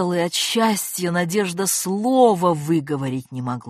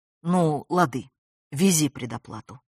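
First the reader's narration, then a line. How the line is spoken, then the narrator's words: Calm. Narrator (Russian): спокойно отозвалась та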